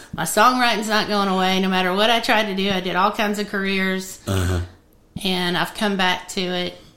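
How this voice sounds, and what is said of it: Tennessee Southern accent. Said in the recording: “I became... a Tennessee girl. I grew up here, and it's just in my accent, and it's not going away.”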